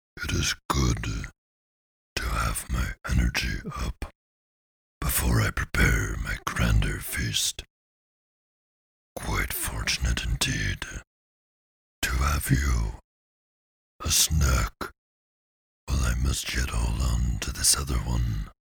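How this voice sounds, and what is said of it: Deep chortling character voice. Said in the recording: “the deep voice chortled”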